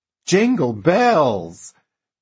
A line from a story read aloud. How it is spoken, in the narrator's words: Truman cried, so delighted